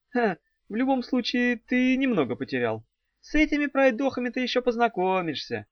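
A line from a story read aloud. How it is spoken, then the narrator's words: Barely speaking through laughter. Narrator (Russian): едва выговорила она сквозь смех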